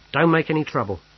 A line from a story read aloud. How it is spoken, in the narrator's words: he snapped